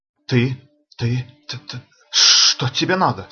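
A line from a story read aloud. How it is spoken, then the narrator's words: Uncertain voice. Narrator (Russian): спросил Розас с неуверенным голосом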